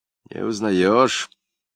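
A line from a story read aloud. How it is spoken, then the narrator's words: Husky voice, pilot. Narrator (Russian): глуховатым голосом спросил летчик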